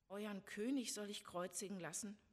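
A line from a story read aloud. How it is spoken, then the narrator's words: Plain question. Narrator (German): fragte Pilatus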